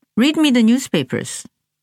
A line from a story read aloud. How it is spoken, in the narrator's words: Ye said